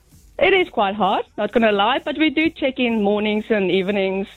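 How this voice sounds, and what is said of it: South African accent. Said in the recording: “The accent. ... An accent. ... And is mum in South Africa?”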